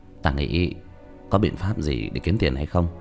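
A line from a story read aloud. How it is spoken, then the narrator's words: Decisive frowning mutter. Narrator (Vietnamese): Diệp Thiếu Dương quyết đoán mà nói, nhíu mày lẩm bẩm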